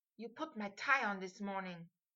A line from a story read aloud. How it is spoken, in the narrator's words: Harry muttered furiously